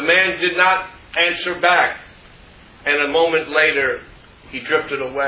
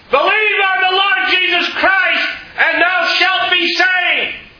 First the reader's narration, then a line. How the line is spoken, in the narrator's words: John Harper then shouted out